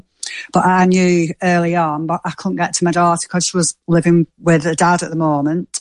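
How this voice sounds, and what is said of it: Manchester English accent. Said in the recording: “Are you Scottish you know or I mean? Irish? ... Sort of Manchester accent ... I thought it was a bit Irish or Scottish”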